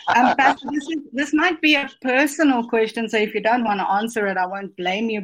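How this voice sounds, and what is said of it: South African accent. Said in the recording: “I'm all the way from South Africa, so if my accent's weird”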